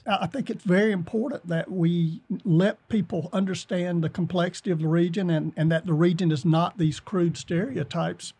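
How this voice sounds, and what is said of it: Appalachian accent. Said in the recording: “my accent ... I haven't lost my accent ... Appalachian”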